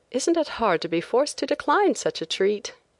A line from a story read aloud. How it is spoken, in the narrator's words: I exclaimed